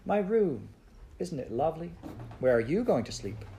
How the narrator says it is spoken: she exclaimed happily

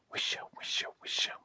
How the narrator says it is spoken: whispered the leaves

